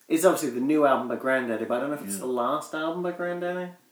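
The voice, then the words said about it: Accent struggling with U sounds. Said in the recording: “My accent really can't pronounce U's in words... I say it like a robot would.”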